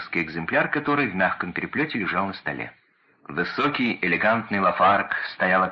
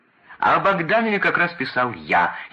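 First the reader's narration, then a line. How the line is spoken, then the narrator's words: Laughing even harder. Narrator (Russian): еще пуще хохотал Ленин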